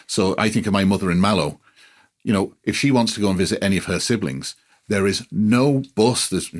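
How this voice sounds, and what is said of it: Speaks with an unusual accent. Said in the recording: “despite my funny accent, North Cork is home”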